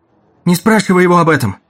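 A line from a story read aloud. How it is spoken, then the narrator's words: Shout. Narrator (Russian): крикнула Дагни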